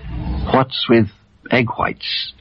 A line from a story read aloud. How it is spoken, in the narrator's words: whispered